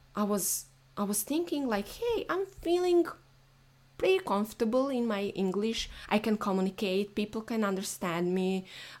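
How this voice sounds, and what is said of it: Speaks English with an accent. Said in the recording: “I have accent, but like it's not like anything unusual”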